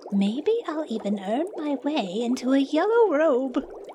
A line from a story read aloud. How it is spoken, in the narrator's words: thought with a giggle